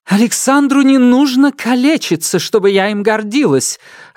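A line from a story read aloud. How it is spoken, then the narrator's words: Snappish retort. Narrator (Russian): огрызнулась Мария Федоровна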